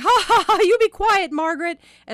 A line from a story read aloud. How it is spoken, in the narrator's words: my sister scolded herself loudly